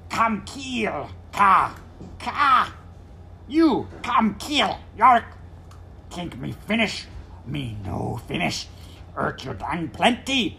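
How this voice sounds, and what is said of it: Harsh, guttural, strange character voice. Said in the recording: “a harsh gabbling, which they all felt immediately to be exotic... The accent was strange and guttural, the speech distorted.”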